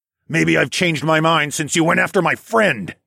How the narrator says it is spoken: I growled

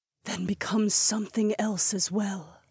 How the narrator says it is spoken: Aliona whispered

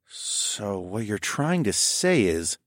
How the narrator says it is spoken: I murmured slowly

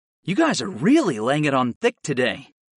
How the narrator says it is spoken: I grumbled

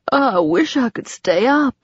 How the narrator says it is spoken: said, stifling a yawn

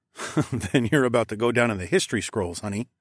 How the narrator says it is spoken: I chuckled

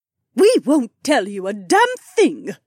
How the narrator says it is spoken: the Duchess spat out

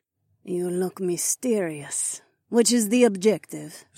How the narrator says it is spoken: Zoe purred

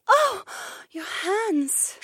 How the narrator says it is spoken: Shay gasped

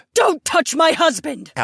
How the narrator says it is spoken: Aliona screamed

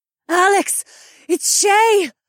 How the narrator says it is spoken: Zoe gasped

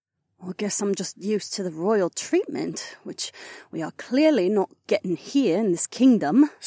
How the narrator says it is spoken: Sienna muttered

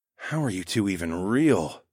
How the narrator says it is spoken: I groaned to myself

